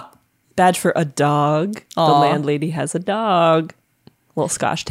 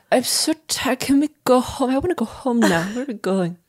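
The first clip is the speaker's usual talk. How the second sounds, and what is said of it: Tipsy breathy Marilyn Monroe impression. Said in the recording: “doing a buzzed Marilyn impression”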